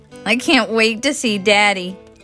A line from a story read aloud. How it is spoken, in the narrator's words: Alex exclaimed